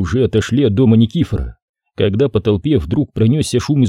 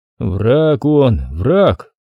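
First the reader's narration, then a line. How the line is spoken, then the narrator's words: Sad father. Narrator (Russian): грустно повторил отец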